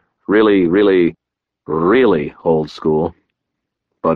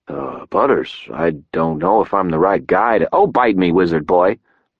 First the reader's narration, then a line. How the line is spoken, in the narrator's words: Butters said, his tone annoyed